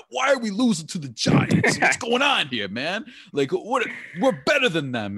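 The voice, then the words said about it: Put-on San Diego accent. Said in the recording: “I'm going to call that a San Diego accent”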